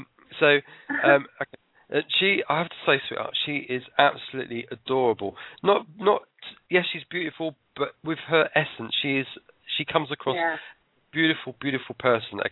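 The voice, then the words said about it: English accent. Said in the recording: “I am an English person ... "Oh, nice accent." Yeah, I'm English.”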